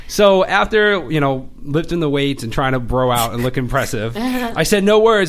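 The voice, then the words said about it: Boston accent. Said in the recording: “I like your Boston accent... It comes out more, like, when I'm, like, really chatty, it gets really intense.”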